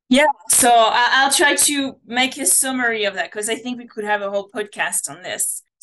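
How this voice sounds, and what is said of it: French accent. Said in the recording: “my accent. You know, I come from France”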